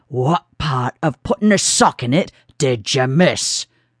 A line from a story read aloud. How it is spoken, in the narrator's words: the driver growled